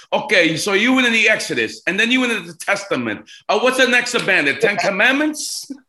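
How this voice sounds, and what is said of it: Exaggerated Italian accent. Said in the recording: “with the big Italian accent”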